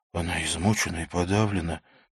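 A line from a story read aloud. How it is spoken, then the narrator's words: Quiet. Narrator (Russian): тихо сказал Винсон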